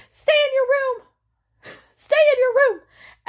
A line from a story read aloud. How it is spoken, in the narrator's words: Jasmine keeps screaming